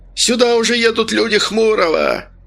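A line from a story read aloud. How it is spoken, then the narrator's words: Shrill yell, hoarseness gone. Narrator (Russian): Заорал он, и голос его теперь звучал визгливо, от хрипотцы и следа не осталось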